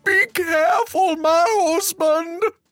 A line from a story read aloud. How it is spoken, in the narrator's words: shouted the giantess from the castle